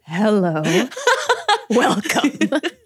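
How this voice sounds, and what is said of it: Put-on sexy voice. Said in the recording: “this is my sexy voice.”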